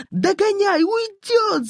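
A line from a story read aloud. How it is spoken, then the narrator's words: Bikers shouting together. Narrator (Russian): закричали мотоциклисты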